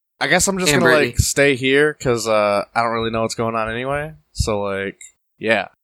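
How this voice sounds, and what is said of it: Put-on character voice. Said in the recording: “Was that your alien impersonation? ... Or is that you as Brittany? ... That was Brittany. ... That was a good Amy impression.”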